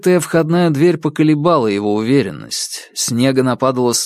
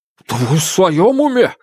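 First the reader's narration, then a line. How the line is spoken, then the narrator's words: Exclamation. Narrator (Russian): воскликнул доктор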